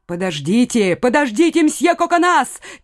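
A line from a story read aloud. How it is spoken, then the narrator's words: Woman shouting. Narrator (Russian): крикнула ему дама из особняка Гиза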